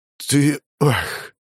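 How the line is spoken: Tired exhale. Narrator (Russian): Явно уставший отец выдохнул

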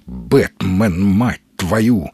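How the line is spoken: Through gritted teeth. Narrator (Russian): сквозь зубы процедил Маломальский

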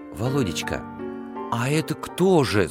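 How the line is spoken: Whispered question. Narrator (Russian): спросила шепотом мать

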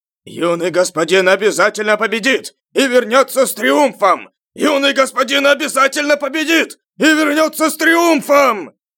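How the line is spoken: Group chanting shouts. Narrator (Russian): Члены лагеря подготовки воинов начали выкрикивать свои кричалки

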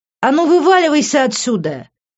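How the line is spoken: Shouting. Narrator (Russian): закричала Лив

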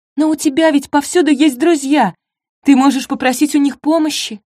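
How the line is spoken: Pleading. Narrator (Russian): взмолилась Антонина

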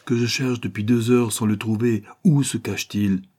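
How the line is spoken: Captain exclaiming. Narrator (French): s'écria le capitaine

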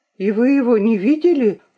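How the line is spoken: Agitated question. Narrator (Russian): взволнованно спросила Луиза

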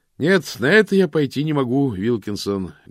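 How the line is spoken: Loud, theatrical pause. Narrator (Russian): громко ответил мокрец, театрально выдержав паузу

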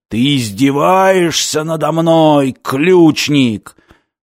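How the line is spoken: Stranger's roar. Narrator (Russian): проревел чужой

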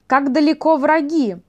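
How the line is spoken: Shout. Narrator (Russian): закричала Людмила

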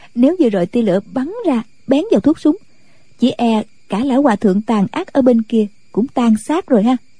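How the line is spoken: Giggling. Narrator (Vietnamese): Nàng cười khúc khích nói

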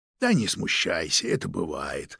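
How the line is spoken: Quiet, understanding voice. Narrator (Russian): продолжил тихим, понимающим голосом

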